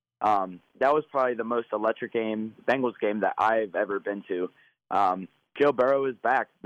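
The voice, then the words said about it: Slightly raspy voice. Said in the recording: “my voice is a little raspy because I think I was yelling and screaming so much”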